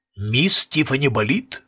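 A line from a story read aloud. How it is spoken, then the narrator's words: Formal tone. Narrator (Russian): спросил он официальным тоном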